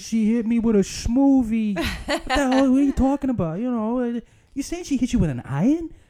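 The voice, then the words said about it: Put-on Boston accent. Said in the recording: “so many Boston isms ... the accent comes through there”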